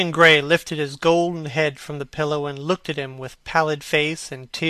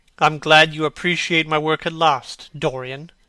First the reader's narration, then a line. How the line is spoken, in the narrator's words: said Hallward coldly